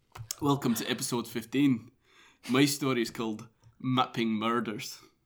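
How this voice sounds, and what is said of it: Mediocre put-on Scottish accent. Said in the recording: “I had a lot of fun doing a Scottish accent every week, so I feel like I might introduce the opening line again in Scottish ... It was a medium accent”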